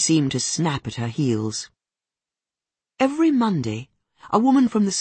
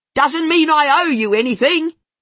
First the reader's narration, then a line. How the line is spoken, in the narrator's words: she yells at them